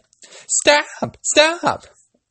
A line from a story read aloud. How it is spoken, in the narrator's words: They cried